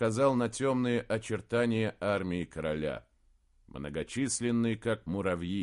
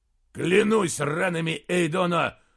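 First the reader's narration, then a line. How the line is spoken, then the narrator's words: Growling. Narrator (Russian): прорычал Эйн Скалдир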